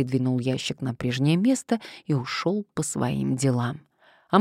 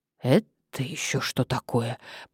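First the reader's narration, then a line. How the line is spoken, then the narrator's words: Mutter. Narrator (Russian): пробормотала Мария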